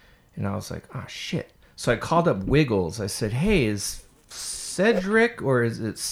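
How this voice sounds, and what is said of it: Usual voice. Nothing is said of it.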